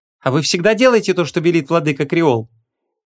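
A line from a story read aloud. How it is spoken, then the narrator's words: Sarcastic. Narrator (Russian): ехидно начала называть владыкой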